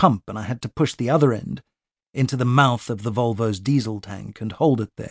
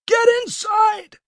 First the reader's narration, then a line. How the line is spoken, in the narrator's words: He shouted